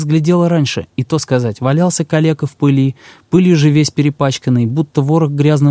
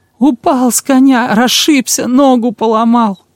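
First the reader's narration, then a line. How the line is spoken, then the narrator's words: Whimpering, rehearsed. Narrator (Russian): прохныкал Жуков приготовленное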